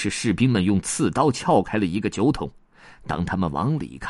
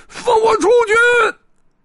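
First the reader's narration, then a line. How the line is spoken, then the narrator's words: Furious muffled shout. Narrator (Chinese): 一个酒桶里发出了狂怒的呼喊声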